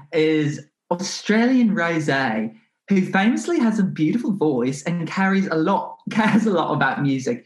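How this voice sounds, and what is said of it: Attempted Australian accent. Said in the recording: “I'm trying to do an Australian accent”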